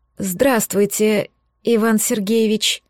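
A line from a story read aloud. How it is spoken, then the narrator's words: Dejected mumble. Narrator (Russian): упавшим голосом пробормотала Свердлова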